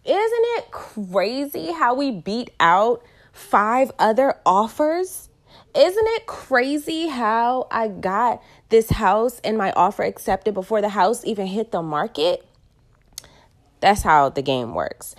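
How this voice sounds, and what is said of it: Excited, high-energy voice. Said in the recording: “I know y'all can hear it in my tone of voice. I'm never really even this excited... I'm really excited and my vibrations are really high”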